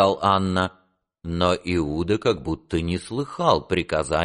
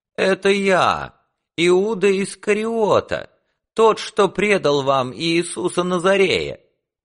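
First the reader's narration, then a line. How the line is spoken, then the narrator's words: Loud. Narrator (Russian): громко сказал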